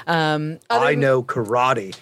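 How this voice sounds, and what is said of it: Imitates another person's voice. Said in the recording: “That was a very impressive Keanu impression. ... his Keanu impression”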